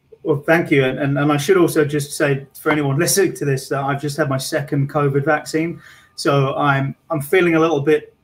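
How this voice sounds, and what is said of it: Charming non-local accent. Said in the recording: “this accent of yours is charming”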